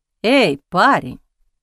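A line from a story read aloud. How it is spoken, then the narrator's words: Sudden peaceable tone. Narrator (Russian): вдруг миролюбивым тоном сказал он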